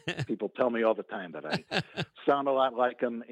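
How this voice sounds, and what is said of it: Slight Chicago accent. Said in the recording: “a little bit of that Chicago accent”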